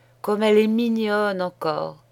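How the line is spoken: Sighing innkeeper. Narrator (French): disait en soupirant l'aubergiste

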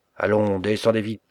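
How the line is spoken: Gruff shout. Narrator (French): cria le voleur d'une grosse voix

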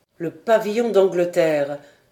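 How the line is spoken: Exclaimed. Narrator (French): s'écria John Mangles

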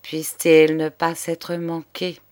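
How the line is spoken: Softened old man's murmur. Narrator (French): murmurait le bonhomme, dont la colère ne tenait pas devant ce spectacle

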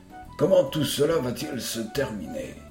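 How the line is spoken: Low voice. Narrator (French): fit Tom à voix basse

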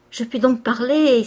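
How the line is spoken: Happy exclamation. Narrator (French): s'écria l'heureuse sœur

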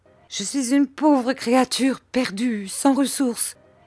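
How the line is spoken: Distressed outcry. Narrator (French): s'écria Miss Gummidge en voyant ce désagrément

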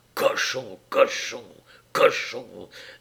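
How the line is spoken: Hissing, growing enraged. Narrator (French): d'une voix sifflante qui s'enrageait

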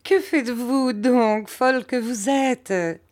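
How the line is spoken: Laughing. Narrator (French): dit ma mère en riant

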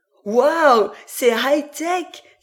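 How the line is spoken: Excited exclamation. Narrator (French): s'exclama Lorelai

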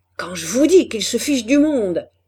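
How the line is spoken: Shouting. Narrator (French): criait l'ingénieur

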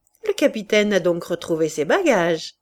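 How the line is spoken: Sneering. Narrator (French): ricana Loubet

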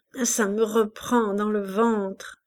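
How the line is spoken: Moaning. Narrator (French): gémit-elle

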